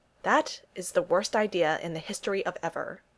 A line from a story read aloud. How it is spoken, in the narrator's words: Tony replied